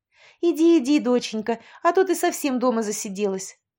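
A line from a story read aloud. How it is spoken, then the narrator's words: Joyful bustling. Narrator (Russian): радостно засуетилась Валентина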